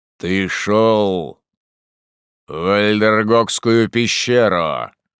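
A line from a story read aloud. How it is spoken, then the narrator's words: Thunderous. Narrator (Russian): ответил тот громовым голосом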